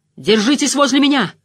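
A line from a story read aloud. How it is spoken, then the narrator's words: Shouted. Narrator (Russian): крикнул страж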